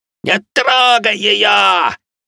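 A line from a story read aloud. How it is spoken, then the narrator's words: Shouting. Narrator (Russian): орал он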